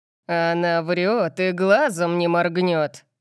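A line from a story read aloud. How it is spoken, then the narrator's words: Purred. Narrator (Russian): Промурлыкал он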